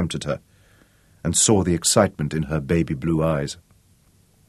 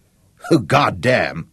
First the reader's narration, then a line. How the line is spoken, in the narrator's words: Ed laughed